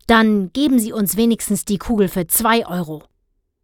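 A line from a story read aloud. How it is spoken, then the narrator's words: Grim snarl. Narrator (German): Grimmig Herr Blauberg fauchte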